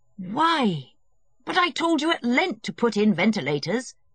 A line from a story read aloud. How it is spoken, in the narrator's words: he cried